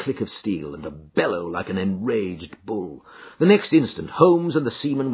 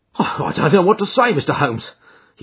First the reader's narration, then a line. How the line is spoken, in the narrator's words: he blurted out at last, with a very red face